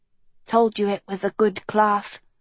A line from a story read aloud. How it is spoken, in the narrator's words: Kiko whispered